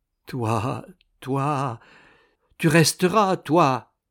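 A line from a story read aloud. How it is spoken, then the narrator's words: Woman pleading. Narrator (French): supplie la bonne femme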